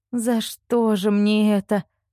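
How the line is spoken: Moan. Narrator (Russian): простонала она

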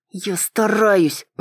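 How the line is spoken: Said through gritted teeth. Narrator (Russian): процедила я

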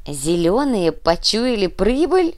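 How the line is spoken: Laughing. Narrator (Russian): рассмеялся Карим

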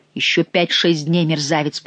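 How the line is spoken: Hissing. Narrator (Russian): прошипел адвокат

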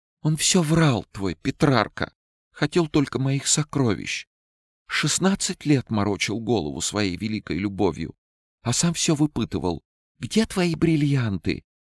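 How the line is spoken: Loud sobbing. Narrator (Russian): Она всхлипывала все громче и зарыдала в голос

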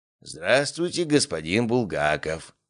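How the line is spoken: Wheezing old man. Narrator (Russian): просипел старик

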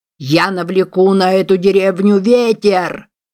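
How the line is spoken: Shouting. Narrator (Russian): кричал он

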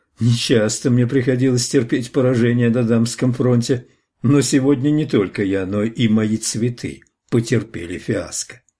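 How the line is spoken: Laughing. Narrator (Russian): рассмеявшись, сказал

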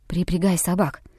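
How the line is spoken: Very quiet command. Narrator (Russian): совсем тихо приказал Хичкок

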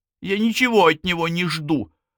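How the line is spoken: Irritated blurt. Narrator (Russian): раздраженно выпалила Спэрроу

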